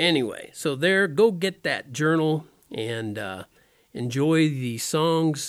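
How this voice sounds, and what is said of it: Usual voice. Nothing is said of it.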